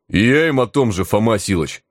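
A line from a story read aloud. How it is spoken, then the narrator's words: Treacherous booming voice. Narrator (Russian): Предательски прогудел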